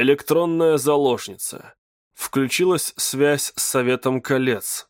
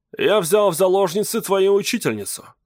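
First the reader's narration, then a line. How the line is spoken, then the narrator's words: Plain. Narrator (Russian): сказал он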